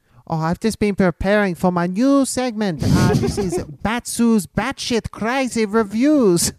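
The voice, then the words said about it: Slips into a Greek accent. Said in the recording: “It went a little bit Greek in the middle for some reason. ... Where's the Greek accent coming from?”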